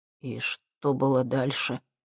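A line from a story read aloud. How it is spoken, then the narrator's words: Quiet question. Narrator (Russian): тихо спросил Максим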